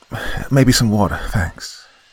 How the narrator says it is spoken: said shakily

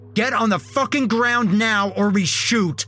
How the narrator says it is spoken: the other one yelled

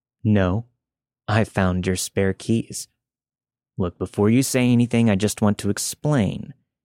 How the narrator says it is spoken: said calmly

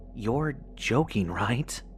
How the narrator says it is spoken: whispered angrily

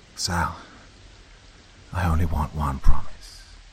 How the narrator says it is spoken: he said into the phone, keeping his voice steady to avoid alarming her

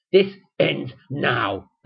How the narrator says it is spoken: hissed

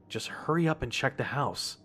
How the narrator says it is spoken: told myself under my breath

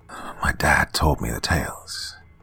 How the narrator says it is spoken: he mutters

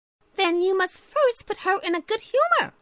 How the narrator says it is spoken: Chirpy Cricket told him cheerfully

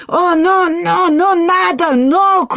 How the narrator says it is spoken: cried the caballero

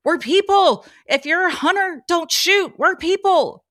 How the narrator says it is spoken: I yelled

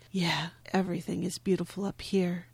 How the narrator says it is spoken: saying huskily

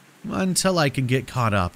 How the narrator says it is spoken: I said weakly

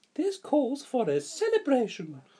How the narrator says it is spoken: cried the Sugar Plum Fairy

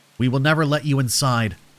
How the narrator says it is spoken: I spat at the group

